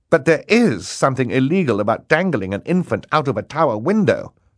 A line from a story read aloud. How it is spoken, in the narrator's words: Justice Strauss said indignantly